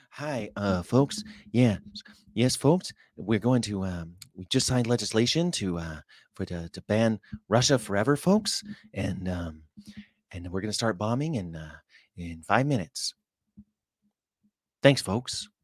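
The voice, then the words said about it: Imitates another person's voice. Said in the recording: “That's my Ronald Reagan impersonation.”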